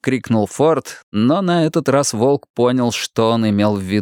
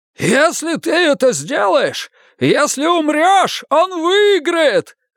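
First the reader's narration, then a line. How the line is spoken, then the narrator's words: Yelled. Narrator (Russian): заорал Финли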